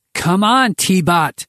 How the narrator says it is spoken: Henry shouted through the channel

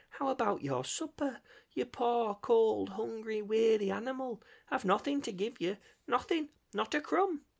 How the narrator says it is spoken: moaned

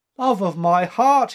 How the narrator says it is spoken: he cried

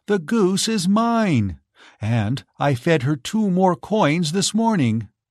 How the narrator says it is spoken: cried Giselle

